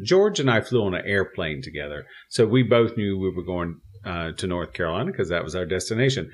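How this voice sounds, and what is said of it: Pronounced Southern American accent. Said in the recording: “my accent ... it's a little pronounced and it just sort of rises up above everything else ... this Southern accent”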